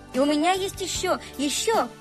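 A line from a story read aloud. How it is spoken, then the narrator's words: Exclamation. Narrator (Russian): Воскликнул Сережа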